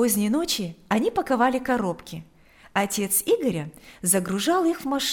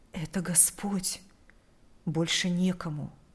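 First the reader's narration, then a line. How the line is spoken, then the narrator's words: Whispered reply. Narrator (Russian): прошептал он в ответ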